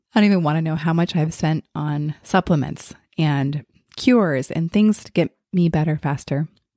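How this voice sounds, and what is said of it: Sick, slightly congested voice. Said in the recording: “hear it in my voice,... I just came down with like a little bit of a virus”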